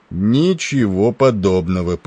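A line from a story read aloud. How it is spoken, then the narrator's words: Deep bass voice. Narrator (Russian): пробасил Тернер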